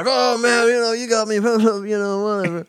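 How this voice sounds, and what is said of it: Imitates another person's voice. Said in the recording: “I like your impression of this guy. ... I wonder if it's, like, dead on. ... he's probably high, honestly, so it's dead on.”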